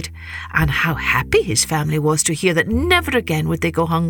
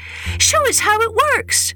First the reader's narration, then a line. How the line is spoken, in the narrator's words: his children begged